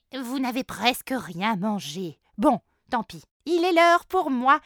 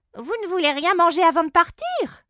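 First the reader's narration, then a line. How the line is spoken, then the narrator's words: Chief exclaiming. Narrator (French): s'exclame grand chef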